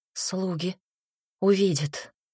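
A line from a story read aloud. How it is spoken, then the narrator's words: Breathed out. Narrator (Russian): выдохнула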